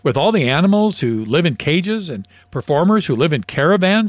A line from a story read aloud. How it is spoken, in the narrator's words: said the duck